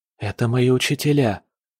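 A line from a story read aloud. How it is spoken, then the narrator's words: Whispered. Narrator (Russian): прошептал Дзянь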